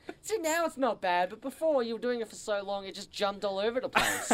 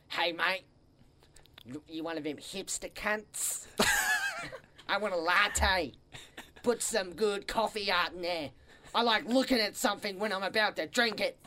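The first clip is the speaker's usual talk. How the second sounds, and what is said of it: Put-on Australian accent. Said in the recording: “You try to order like a soy latte in the accent. ... You got to add those high-pitched bits every now and then.”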